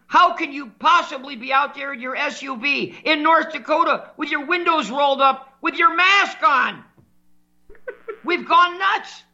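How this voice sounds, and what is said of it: Yelling, raised angry voice. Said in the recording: “I'm yelling on the radio”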